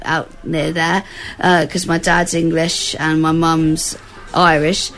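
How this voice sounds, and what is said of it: English accent. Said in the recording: “as you can tell from my accent, I was born in the UK.”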